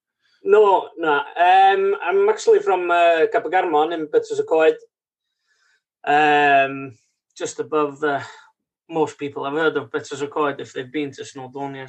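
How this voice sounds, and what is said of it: Non-New Zealand, Welsh-sounding accent. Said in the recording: “your accent that you are not a native New Zealander”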